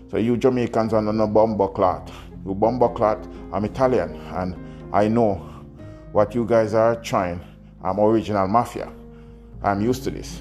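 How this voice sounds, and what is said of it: Strong Italian accent. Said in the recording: “He said it in a very strong Italian accent.”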